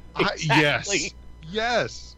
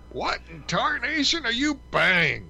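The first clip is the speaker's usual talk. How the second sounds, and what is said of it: Yosemite Sam impression. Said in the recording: “your imitation of Yosemite Sam”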